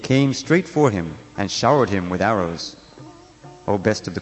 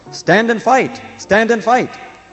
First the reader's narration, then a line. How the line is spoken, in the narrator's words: Determined to capture him, the angry bowmen led by Karna shouted at Samba